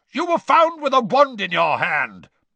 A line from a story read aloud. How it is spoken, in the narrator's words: barked Mr